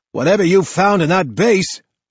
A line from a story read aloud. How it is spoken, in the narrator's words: says, shouting over the noise